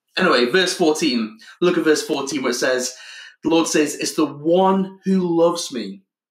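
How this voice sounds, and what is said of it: Voice affected by a cold. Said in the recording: “I've got a bit of a cold just now. First cold in a year, I think. So forgive me if my voice cracks a bit.”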